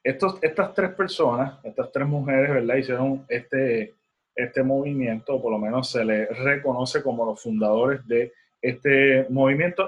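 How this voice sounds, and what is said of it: Puerto Rican Spanish accent. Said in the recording (Spanish): “mi pronunciación no sea la mejor ... mi acento puertorriqueño”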